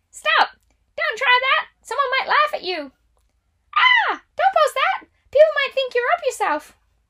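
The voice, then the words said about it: Funky cartoonish character voice. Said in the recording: “talking to you in a funky voice, ... Something like Elmo or Minnie Mouse”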